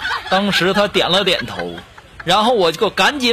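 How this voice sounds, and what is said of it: Usual voice. Nothing is said of it.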